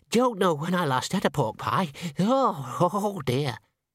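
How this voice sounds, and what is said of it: Squeaky man's character voice. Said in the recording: “said the man in a squeaky voice.”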